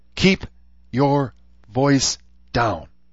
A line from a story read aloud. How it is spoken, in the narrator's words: she said tightly